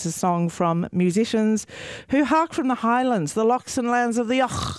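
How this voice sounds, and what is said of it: Put-on Scottish accent. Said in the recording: “You wouldn't have known I wasn't Scottish, would you?”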